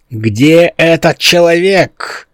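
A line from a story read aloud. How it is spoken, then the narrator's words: Shouted. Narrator (Russian): закричал Дзенкозис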